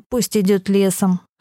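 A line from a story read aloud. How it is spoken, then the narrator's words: Snort. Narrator (Russian): хмыкнул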